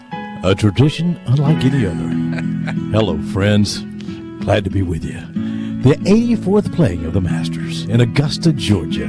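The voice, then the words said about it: Jim Nantz impression. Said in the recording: “Jim Nantz ... that impersonation”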